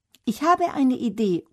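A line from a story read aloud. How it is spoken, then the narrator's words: Calls out. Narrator (German): ruft Dagmar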